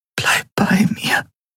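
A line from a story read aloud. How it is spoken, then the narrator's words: Tender female whisper. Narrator (German): flüsterte sie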